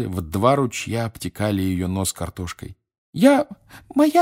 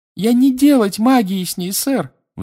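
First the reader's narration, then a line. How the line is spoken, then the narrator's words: Shrieked. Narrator (Russian): взвизгнула Винке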